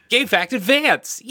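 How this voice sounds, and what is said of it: Poor imitation of another person's voice. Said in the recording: “That was a really terrible Ed impression. ... It was really bad.”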